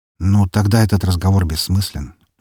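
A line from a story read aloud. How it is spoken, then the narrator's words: Sighing. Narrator (Russian): вздохнул я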